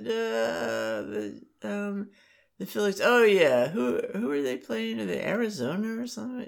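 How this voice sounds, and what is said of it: Imitates another person's voice. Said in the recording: “That's an extremely good impression of your mom.”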